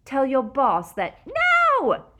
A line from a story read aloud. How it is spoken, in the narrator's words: She screamed